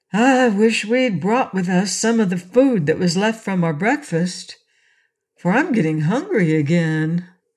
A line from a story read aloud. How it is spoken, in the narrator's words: Trot said with a long-drawn breath that was much like a sigh